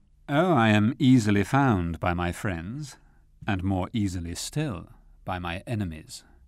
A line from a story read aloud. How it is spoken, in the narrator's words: replied Rashleigh coolly